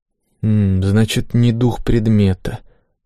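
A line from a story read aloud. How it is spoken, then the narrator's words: Thoughtful mutter. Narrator (Russian): задумчиво пробормотал я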